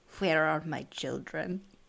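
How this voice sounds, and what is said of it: Put-on Sokovian accent. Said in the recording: “That is my Sokovian accent.”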